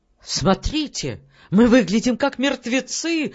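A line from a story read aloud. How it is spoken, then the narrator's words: Horrified young man exclaiming. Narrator (Russian): с ужасом воскликнул молодой оратор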